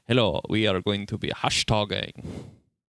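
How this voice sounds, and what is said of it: Bad put-on German accent. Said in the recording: “That was a terrible German accent. ... Oh, that got really bad really fast. ... that was really, really bad”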